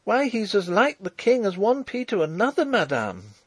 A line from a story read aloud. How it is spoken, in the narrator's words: cried the girl, a little shaken, but still obstinate